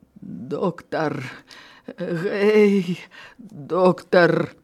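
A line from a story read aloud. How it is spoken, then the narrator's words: Choked voice. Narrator (Belarusian): Пранціш з душаным голасам прагаварыў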